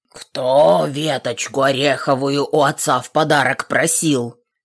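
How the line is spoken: Bear growling. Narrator (Russian): прорычал медведь

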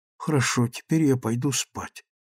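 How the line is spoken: Whisper. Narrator (Russian): шепнул он сестре

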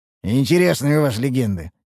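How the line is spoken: Amused snort. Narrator (Russian): хмыкнул Мрадиш

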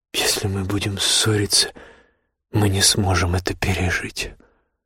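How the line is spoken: Tired mutter. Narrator (Russian): устало пробормотала она

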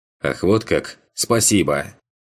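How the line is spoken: Angry reply. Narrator (Russian): Зло отозвался Бруно

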